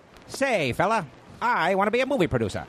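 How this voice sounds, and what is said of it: Old-timey parody movie accent. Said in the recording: “like a parody of old ... style ... I like the accent.”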